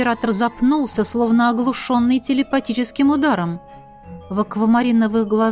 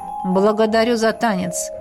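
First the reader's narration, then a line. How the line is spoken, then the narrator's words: Dry reply. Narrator (Russian): сухо ответил дракон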